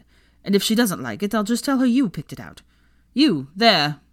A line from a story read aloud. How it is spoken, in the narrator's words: added sharply